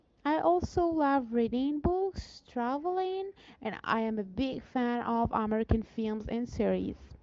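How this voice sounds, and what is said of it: Accented non-native English. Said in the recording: “I'm sorry for this accent.”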